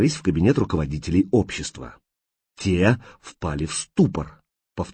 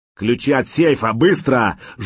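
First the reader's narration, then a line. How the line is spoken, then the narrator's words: Terrible roar. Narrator (Russian): жутко взревел человек с рацией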